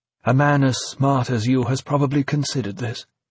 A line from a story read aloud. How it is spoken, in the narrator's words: V continued calmly, giving a cool assessment of the situation